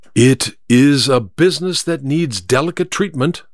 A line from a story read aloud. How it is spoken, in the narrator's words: said Holmes